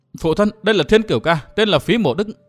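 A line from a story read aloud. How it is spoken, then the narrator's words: Eager, excited. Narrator (Vietnamese): nôn nóng hớn hở nói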